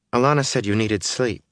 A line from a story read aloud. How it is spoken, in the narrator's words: said